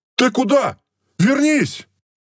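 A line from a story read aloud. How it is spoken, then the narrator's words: Shouted. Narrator (Russian): Прокричал Симон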